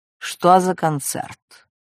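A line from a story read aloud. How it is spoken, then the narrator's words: Even, level voice. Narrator (Russian): Тот ровным голосом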